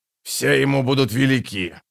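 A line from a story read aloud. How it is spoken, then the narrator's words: Grumbling. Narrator (Russian): проворчал Троц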